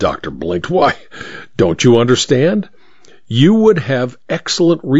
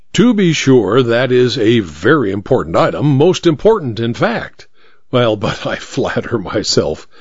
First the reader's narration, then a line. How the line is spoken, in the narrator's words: chuckled softly